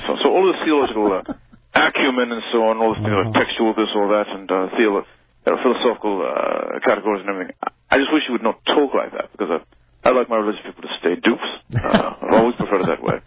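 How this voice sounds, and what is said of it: Christopher Hitchens impression, British accent. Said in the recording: “That was almost a perfect Christopher Hitchens. It was very close. Not quite, but pretty close. ... my British accent's quite a bit better than yours”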